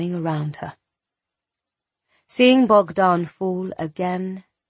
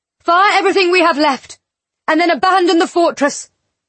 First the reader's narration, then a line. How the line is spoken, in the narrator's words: she shouted